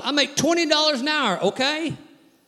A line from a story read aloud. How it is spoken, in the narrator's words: He hollers